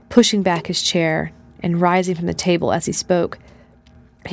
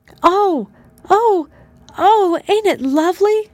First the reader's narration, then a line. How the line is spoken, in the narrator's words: cried Ruth